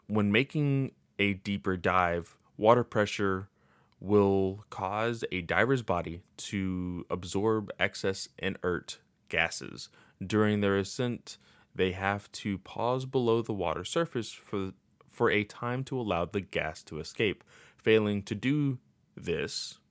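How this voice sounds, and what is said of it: Robotic, monotone reading voice. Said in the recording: “talking like a robot”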